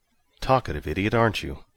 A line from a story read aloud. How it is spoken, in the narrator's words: Mike sighed